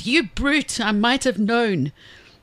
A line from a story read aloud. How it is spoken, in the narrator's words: Pig cried